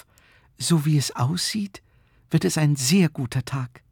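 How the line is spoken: Whispering. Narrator (German): flüsterte Frau Knopf

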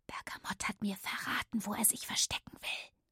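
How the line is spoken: Whispered in ear. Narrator (German): raunte ins Ohr

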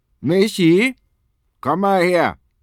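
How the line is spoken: Angry father calling. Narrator (German): ruft Papa, und seine Stimme klingt ärgerlich

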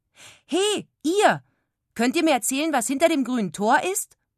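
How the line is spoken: Curious call. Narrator (German): rief Frieda neugierig

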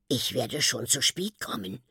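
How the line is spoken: Whispering self-encouragement. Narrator (German): flüstert er sich Mut zu

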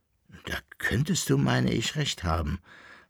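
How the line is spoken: Thoughtful relieved sigh. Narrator (German): sagte nachdenklich und mit einem tiefen Seufzer der Erleichterung der Koppelbär

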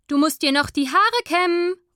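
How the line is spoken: Sudden call through door. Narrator (German): ruft Mama plötzlich durch die Tür

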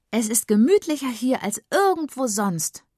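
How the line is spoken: Calling out. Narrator (German): ruft Tommy

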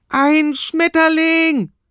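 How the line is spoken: Shouting. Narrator (German): schreit Michi

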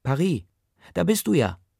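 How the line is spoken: Calling out. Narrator (German): die dazugehörige Stimme ruft

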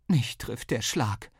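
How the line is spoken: Mother groaning. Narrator (German): stöhnte Mama

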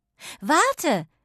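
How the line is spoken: Calling out. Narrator (German): rief sie

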